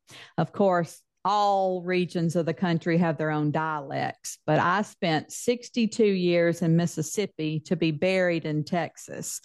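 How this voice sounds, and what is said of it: Southern US accent. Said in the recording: “I'm loving your southern accent ... I thought I had lost it, but my friends say I have not ... it's still there”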